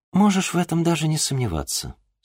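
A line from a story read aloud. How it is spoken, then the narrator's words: Plain. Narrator (Russian): сказала княгиня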